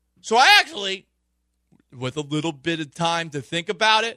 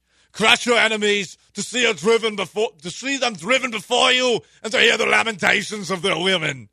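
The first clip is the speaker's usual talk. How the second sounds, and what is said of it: Bad Arnold Schwarzenegger impression. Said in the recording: “a terrible Arnold Schwarzenegger impression.”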